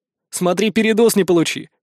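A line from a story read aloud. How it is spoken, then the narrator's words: Snorted. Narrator (Russian): фыркнул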